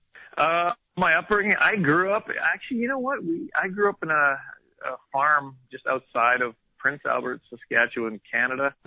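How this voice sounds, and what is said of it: Canadian accent. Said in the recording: “I think folks can tell from your accent that you're from Canada.”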